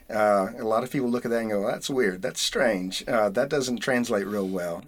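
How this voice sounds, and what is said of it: Southern US accent. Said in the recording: “my accent. And I've had to try to work on my southern accent”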